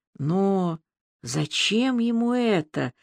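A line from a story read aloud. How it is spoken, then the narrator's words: Strained, forced out. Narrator (Russian): выдавила, наконец, из себя Аля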